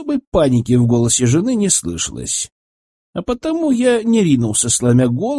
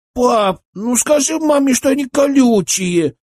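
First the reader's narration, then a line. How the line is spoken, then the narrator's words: Whining. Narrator (Russian): захныкала она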